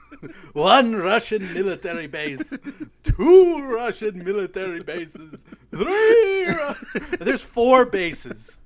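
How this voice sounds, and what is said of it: Imitates the Count character's voice. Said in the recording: “I'm going to do my Count from Sesame Street impersonation”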